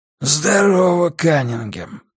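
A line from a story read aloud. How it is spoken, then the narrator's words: Wheezy voice. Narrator (Russian): просипел он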